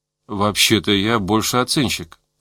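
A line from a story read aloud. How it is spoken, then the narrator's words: Hesitant. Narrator (Russian): сказал он неуверенно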